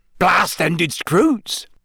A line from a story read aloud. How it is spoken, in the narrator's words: Hagrid said eagerly